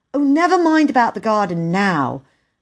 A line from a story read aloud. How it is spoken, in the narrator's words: cried Peter